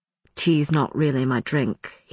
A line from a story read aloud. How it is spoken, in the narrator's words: he said, his voice dropping slightly